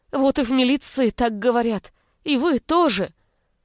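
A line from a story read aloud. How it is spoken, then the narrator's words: Exclaimed. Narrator (Russian): Воскликнула Тамара, краснея на глазах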